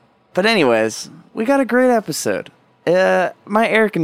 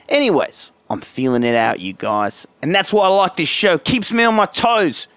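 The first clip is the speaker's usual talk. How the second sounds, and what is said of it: Put-on accent that wanders around. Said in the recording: “I gotta stop talking like this. ... we went on a little journey just then in terms of that accent, in terms of where that man was from”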